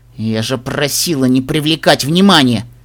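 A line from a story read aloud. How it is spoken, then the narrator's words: Hissing through teeth. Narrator (Russian): процедила Даймон Тиара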